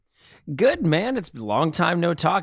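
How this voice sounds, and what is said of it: Sarcastic delivery. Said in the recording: “I say that sarcastically”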